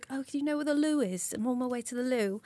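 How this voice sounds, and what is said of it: Put-on British accent. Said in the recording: “I always put on a British accent, because I don't think that they would just respect me as just my regular American self.”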